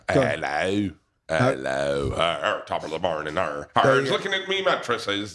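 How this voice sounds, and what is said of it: Attempted Irish accent. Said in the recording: “What's an Irish accent? ... an Irish accent wouldn't be that. Try it again.”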